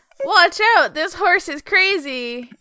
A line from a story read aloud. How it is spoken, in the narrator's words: Vinny's gonna scream